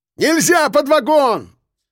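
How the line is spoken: Yell. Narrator (Russian): заорал я

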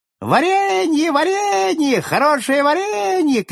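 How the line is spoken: Shouting. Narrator (Russian): кричала она

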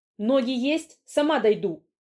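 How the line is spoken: Barked. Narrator (Russian): рявкнула я

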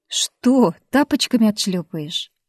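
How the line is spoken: Snide. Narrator (Russian): ехидно спросил Костян

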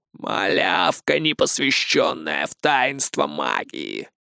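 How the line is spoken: Muffled laughter. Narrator (Russian): глухо расхохотался колдун

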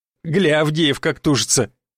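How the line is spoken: Loud guffaw, stocky man. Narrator (Russian): захохотал крепко сбитый блондин

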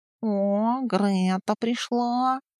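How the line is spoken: Contented purr. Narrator (Russian): Довольно мурлыкнул он

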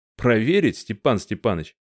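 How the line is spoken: Chuckling. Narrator (Russian): хохотнул Марцинкевич

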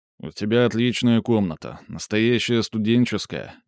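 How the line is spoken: Sad. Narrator (Russian): говорил Левкович грустно

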